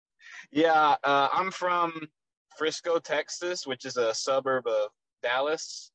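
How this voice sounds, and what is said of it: Slight Texas accent. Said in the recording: “I hear an accent a little bit ... I don't feel like I have a Texas accent at all, but everyone tells me I do ... we're over here in Canada, so we notice it”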